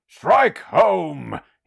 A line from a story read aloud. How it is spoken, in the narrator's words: screamed